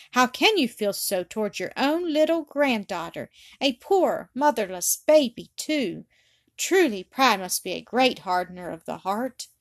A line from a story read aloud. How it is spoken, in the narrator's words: she exclaimed, tears starting to her eyes